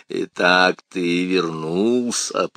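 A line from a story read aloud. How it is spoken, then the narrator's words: Deep bass voice. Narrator (Russian): пробасил он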